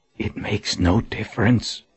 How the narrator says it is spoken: Colin whispered

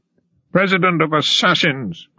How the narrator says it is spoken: cried Robespierre

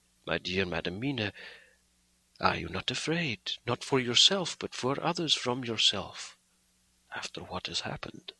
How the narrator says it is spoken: said suddenly, but quietly

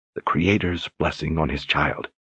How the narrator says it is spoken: she whispered

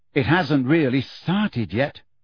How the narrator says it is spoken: sighed Hermione gloomily

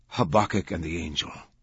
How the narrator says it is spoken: he said, his voice almost inaudible

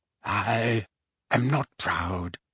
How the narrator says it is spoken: he whispered through his fingers

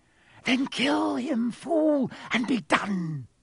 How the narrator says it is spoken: screeched Voldemort

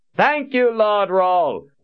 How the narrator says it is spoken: one of the soldiers shouted

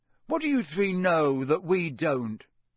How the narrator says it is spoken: said Ron irritably

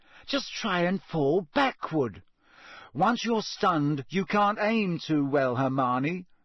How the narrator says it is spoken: said Ron angrily

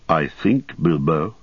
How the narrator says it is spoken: he said quietly

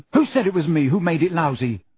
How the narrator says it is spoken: Ron snapped

